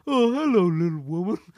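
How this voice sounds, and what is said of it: Imitates another person's voice. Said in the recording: “That's my impression of you.”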